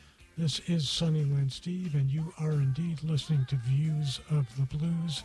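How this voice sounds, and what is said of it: Usual voice. Nothing is said of it.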